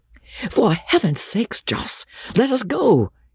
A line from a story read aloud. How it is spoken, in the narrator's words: he cried